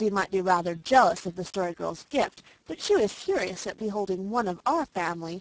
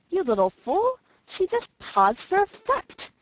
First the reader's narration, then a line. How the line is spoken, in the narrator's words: cried Felicity angrily